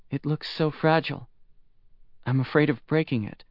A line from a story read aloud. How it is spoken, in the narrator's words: Shi Zi said softly